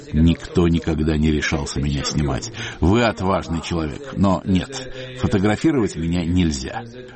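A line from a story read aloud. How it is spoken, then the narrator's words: Laughing. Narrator (Russian): Он рассмеялся и сказал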